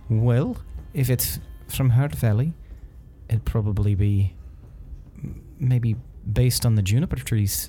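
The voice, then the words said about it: Badly done put-on accent. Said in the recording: “I've switched into a fucking bad accent.”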